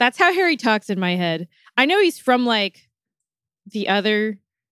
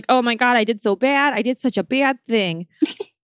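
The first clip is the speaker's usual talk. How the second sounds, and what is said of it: Put-on Wisconsin accent. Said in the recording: “I like the Wisconsin accent there.”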